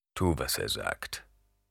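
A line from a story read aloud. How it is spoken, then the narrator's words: Grumbling mutter. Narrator (German): brummte Stilgar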